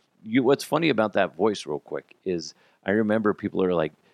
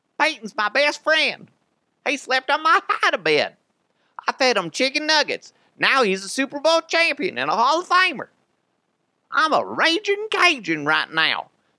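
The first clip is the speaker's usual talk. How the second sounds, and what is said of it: Bad Cajun-accented Stokely impression. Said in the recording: “It's a horrible Stokely impression ... can you do a Stokely voice? ... the Cajun accent is just interesting to me. It's just really odd. And Stokely has that”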